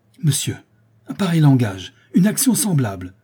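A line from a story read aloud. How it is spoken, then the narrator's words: Outraged countess exclaiming. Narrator (French): s'écria la comtesse outrée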